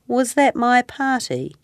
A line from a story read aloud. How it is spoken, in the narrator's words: He asked sadly